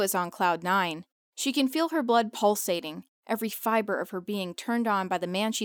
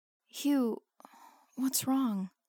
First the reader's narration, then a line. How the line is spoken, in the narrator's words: asks in a breathy voice